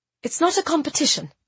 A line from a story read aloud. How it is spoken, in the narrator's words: I said quickly